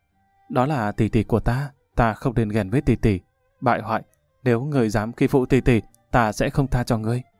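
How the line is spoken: Gentle lamenting woman. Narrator (Vietnamese): nhị tiểu thư nhả miệng ra, giọng dịu dàng than

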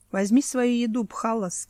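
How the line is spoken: Plain. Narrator (Russian): сказал Тирах

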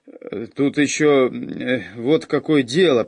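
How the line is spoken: Mumbling. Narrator (Russian): промямлил Муки

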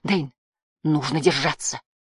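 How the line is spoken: Quiet. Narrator (Russian): тихо сказал Барда

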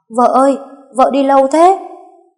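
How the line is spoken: Loud shout. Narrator (Vietnamese): hét to

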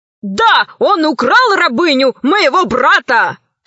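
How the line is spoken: Admiral shouting. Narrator (Russian): кричал адмирал

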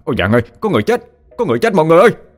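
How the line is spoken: Panicked shout. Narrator (Vietnamese): anh vội hét toáng lên

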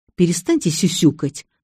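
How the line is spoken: Angry. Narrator (Russian): зло сказала я

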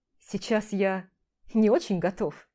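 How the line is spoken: Laughing. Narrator (Russian): рассмеялся

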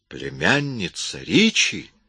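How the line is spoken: Surprised exclamation. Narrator (Russian): воскликнул Эмис

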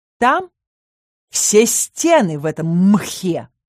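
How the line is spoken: Growl. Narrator (Russian): рыкнул магистр

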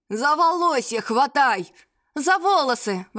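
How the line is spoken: Shouting in unison. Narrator (Russian): в один голос закричали мы с бабкой

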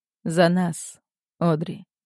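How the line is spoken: Hoarse whisper from behind. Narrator (Russian): Хрипло шепчет голос у меня за спиной

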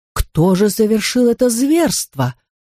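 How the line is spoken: Scolding exclamation, aunt. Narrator (Russian): воскликнула тетушка Севрие, как будто обращалась к непослушным школьникам

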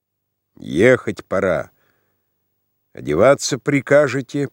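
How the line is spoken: Sullen angry grumble. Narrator (Russian): проворчал он по своему обыкновению с такой злобной угрюмостью, точно обругал его

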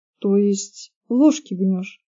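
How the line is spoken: Uncertain question. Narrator (Russian): неуверенно спросила Кейт

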